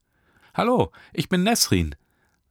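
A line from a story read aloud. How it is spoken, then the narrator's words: Bright clear voice. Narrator (German): sagte sie mit heller Stimme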